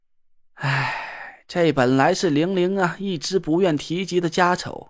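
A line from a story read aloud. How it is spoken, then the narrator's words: Long sigh. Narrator (Chinese): 唐风长叹了一口气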